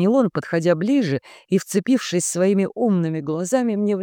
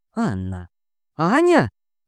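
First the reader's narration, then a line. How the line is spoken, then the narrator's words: Sudden remembering exclamation. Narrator (Russian): вдруг воскликнул, вспомнив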